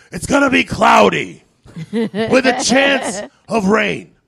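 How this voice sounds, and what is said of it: Imitates another person's voice. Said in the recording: “That's my terrible Al Pacino impression.”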